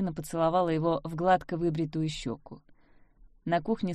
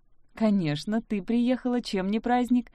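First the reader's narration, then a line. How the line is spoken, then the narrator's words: Father laughing. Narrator (Russian): засмеялся папа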